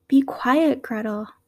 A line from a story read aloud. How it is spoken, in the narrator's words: said Hansel